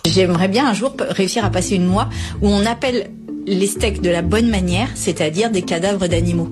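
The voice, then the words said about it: French accent. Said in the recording (French): “elle a l'accent français”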